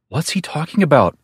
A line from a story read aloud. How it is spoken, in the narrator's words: Margaret asked nervously